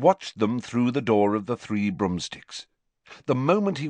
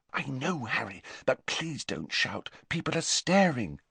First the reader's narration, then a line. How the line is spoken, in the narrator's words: whispered Hermione